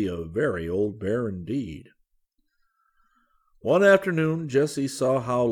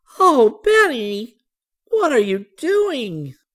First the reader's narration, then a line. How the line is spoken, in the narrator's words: She cried